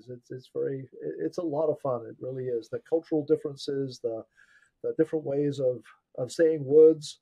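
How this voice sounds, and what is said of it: Mixed English and North American accent. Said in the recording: “I grew up in England, so my accent is a complete mess”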